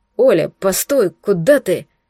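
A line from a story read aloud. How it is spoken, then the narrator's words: Confused call. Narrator (Russian): Окликнул, растерянно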